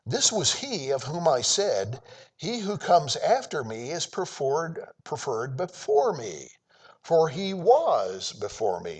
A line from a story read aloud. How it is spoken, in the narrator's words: cried out, saying